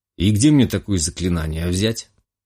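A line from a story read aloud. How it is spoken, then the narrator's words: Puzzled snort. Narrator (Russian): Озадаченно хмыкнул я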